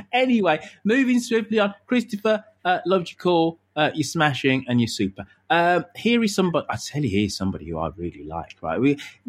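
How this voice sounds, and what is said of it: Birmingham (Brummie) English accent. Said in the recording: “you're soft, lovely, Brummy, you know, brogue ... Brummies, like, we fucking hate it ... the bard himself spoke with a Midlands accent”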